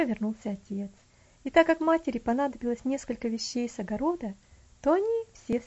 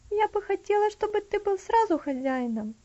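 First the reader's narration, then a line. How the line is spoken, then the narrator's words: Sighing. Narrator (Russian): вздохнула Стефани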